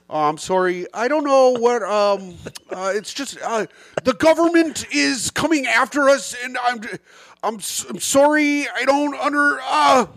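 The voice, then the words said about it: Imitates another person's voice. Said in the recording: “I do an impression of Pat.”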